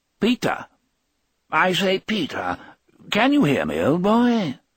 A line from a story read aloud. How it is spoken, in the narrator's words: Toc spoke in the clipped British tones of Andrew Case, Peter's department head